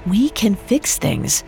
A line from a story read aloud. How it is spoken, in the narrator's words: Rufus said gently